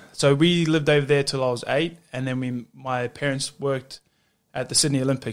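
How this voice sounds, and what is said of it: Australian accent. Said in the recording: “I've got a bit more of an Aussie accent than all my cousins and the rest of my family”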